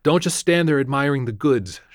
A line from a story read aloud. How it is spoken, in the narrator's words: she said testily